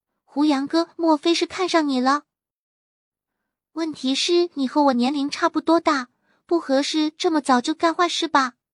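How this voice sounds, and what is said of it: Quiet, hushed speech. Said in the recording (Chinese): “随即就露出了复杂的神色，小声说”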